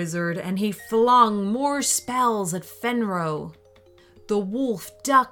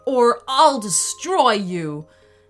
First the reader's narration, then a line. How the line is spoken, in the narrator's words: the wolf shouted